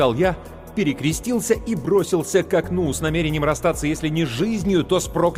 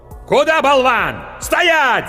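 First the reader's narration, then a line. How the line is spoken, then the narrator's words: Yelling. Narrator (Russian): заорал меч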